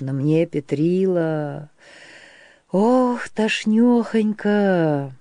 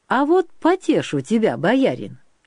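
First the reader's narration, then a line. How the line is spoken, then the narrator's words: Cheerful voice. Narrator (Russian): пообещал Петрила веселым голосом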